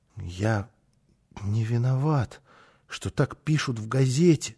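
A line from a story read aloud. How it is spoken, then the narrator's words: Muttering. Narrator (Russian): пробормотал он снова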